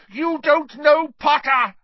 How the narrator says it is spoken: shrieked Snape

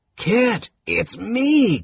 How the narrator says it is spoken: Caramon croaked, half-strangled

